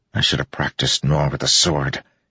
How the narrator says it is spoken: he muttered

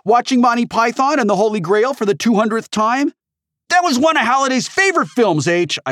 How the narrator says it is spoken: shouted

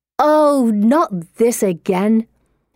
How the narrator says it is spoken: Anne snarls

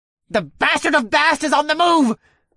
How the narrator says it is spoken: another one cried out from across the way

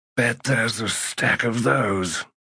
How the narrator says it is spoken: muttered the healer

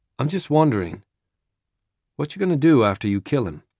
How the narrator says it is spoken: Jesus says, calmly, quietly

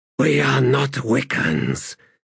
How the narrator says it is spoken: he whispered

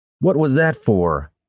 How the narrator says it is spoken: Brannis shouted

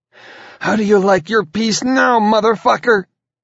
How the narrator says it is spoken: she cried

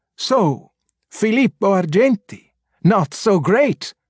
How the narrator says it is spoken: men like muddy fish ... they cried

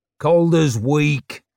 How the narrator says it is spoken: growled the big man

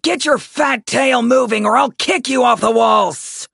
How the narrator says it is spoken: Savara bellowed at him

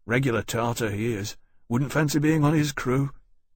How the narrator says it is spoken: the murmur behind him

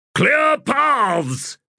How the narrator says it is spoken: the captain bellowed

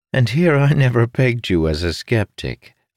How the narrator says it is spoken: Felinia chuckled

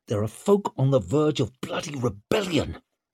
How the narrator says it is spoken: he hissed

